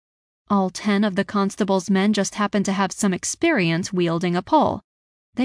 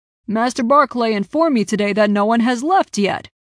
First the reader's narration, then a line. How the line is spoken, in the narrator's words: Piers bellowed